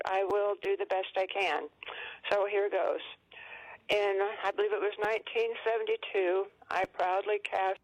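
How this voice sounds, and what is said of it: Shaking, angry voice. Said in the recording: “I'm furious and I'm mad as hell. My voice is shaking”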